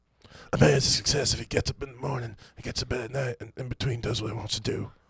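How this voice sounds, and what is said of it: Breathless, raspy imitated voice. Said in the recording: “Was that Bob Dylan after a jog? ... so out of breath? ... His voice is real raspy. He's out of breath”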